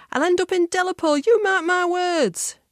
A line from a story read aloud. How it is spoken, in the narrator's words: she yelled